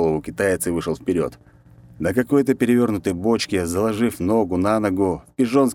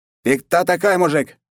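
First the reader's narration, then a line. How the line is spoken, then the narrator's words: Shout. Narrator (Russian): крикнул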